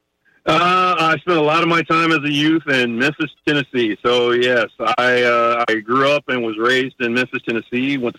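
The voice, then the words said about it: Noticeable regional accent. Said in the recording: “a bit of an accent coming our way through the phones”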